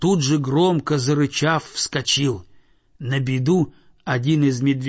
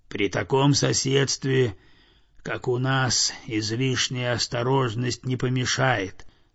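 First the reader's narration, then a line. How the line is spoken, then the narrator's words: Very quiet objection. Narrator (Russian): совсем тихо возразил медведь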